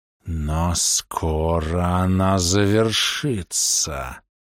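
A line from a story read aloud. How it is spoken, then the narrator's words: Hissed. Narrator (Russian): прошипел Фунг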